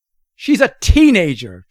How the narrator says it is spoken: Schrödinger's Isabel yells back

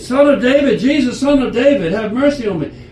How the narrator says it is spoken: he started yelling out, he said

